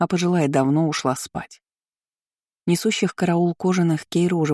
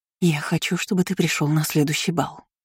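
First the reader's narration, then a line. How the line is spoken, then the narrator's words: Female whisper. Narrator (Russian): шептал женский голос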